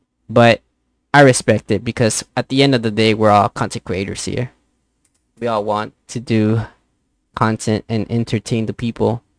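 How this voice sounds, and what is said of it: Heavy Spanish-speaker's accent. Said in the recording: “my heavy accent ... Spanish is my main language”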